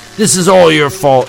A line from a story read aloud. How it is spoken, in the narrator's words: he shouted angrily